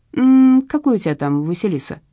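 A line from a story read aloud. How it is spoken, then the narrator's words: Plain. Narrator (Russian): спросил Леша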